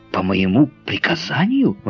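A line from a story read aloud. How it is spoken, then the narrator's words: Exclaiming. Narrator (Russian): воскликнул Гленарван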